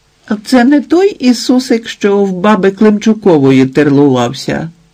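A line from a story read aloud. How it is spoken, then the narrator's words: Young child shrieking. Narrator (Ukrainian): проверещало пацаня рочків семи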